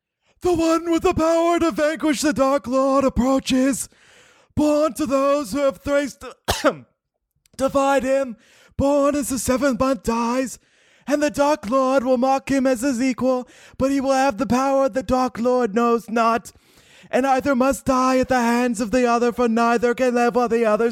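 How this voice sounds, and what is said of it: Impression of Professor Trelawney. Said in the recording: “Trelawney said to Dumbledore. I'm going to try to do an impression of this now. I haven't practiced this”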